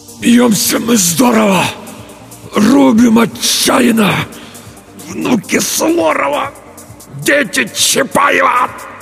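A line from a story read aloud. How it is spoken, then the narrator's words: Strained, barely squeezed out. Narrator (Russian): Только и смог выдавить Петр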